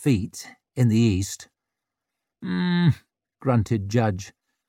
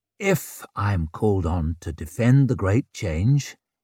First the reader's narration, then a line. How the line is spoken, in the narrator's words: he said calmly